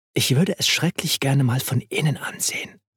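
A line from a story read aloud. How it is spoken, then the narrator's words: Whisper. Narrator (German): flüsterte sie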